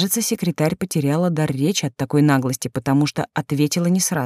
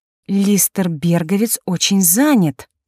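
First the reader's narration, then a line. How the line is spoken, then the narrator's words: Through gritted teeth. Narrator (Russian): процедила она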